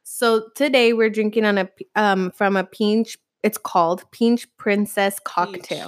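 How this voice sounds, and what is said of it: Slight foreign accent. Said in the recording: “my little accent.”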